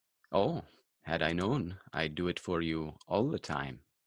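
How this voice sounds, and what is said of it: Subtle put-on Indian accent. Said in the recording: “accent is much closer... Much better. A little more subtle... the Indian stranger”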